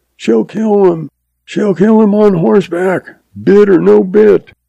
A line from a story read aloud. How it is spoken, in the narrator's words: F yells